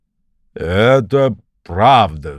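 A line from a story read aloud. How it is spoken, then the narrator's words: Ogre's deep bass reply. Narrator (Russian): басом ответил людоед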